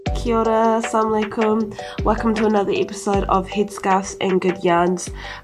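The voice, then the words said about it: Congested, blocked-nose voice. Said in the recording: “My voice is just going to sound like this for the rest of the episode ... hay fever ... my sinuses are just constantly blocked up ... this is what I'm going to sound like”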